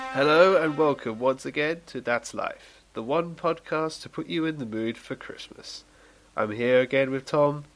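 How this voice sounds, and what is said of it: Sick voice with a cold. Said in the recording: “You sound a bit ill, my friend. You sound a little bit ill. ... I've acquired a monster of a cold”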